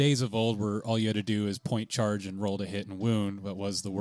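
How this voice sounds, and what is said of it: Usual voice. Nothing is said of it.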